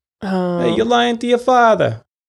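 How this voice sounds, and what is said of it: Marlon Brando mobster voice impression. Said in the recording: “let's hear your mobster ... I'm trying to do that Brando voice”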